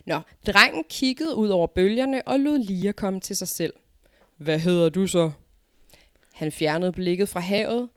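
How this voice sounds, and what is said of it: Jutlandic Danish accent. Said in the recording (Danish): “hvorfor har han sådan en jysk accent? ... jeg kan ikke tale andet end jysk”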